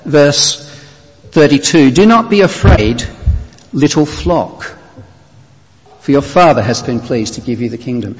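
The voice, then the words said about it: Australian accent. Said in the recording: “you can tell from my accent I'm not from these parts. I'm from Australia originally.”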